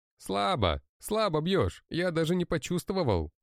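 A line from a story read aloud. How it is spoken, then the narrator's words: Taunting shout. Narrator (Russian): Продолжаю кричать, внутренне хихикая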